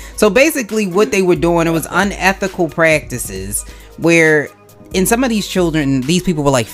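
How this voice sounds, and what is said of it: Usual voice. Nothing is said of it.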